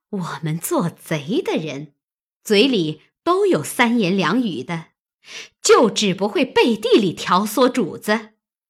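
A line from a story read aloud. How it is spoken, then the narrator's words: Sneering. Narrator (Chinese): 探春冷笑道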